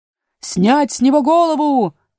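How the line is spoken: Queen shouting after. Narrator (Russian): крикнула вдогонку королева

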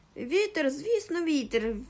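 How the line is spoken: Joyful exclamation. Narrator (Ukrainian): вигукнув і так зрадів

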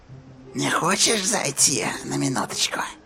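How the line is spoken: Whispering. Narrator (Russian): прошептала Рия

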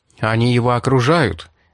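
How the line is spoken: Exclaiming. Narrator (Russian): воскликнул Мэшлер

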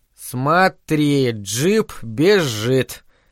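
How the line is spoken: Slow reading aloud. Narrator (Russian): медленно читал Дэнни

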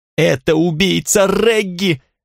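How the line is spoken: Deafening shriek. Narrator (Russian): взвизгнула Эвелина так, что у меня заложило уши

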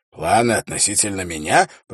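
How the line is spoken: Hoarse wheeze. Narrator (Russian): прохрипел он

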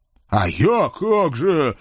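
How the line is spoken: Offended. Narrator (Russian): обиженно кинулся ко мне рыжий ординарец

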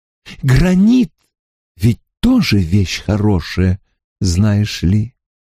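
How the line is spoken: Less gloomy tone. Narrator (Russian): Сказал он уже не столь мрачным тоном

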